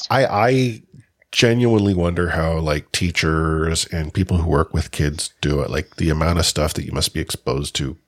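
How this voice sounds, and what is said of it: Congested, stuffy sinus voice. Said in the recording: “I've been flat on my butt for like a week... You can probably still kind of hear it in my voice because it's gone into the sinuses a little bit”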